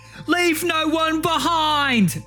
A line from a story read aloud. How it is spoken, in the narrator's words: he's going to see Kenneth about to get absolutely mangled in front of him, and he's going to shout